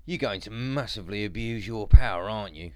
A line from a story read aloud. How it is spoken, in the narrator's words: Jack groaned